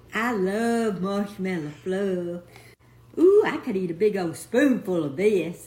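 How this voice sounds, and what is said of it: Speaker's own noticeable accent. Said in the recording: “Love her accent.”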